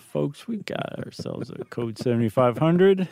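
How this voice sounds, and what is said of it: Pilot voice imitating Chuck Yeager. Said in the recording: “your best impression... my impression of a pilot doing an impression of Chuck Yeager”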